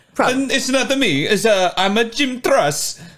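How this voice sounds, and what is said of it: Bad put-on Italian accent. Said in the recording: “he does the bad Italian accent.”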